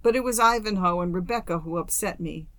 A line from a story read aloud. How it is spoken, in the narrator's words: she sobbed